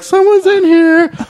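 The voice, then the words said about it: High-pitched yelling voice. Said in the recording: “I did the high voice. ... Yelling like this little high school bitch.”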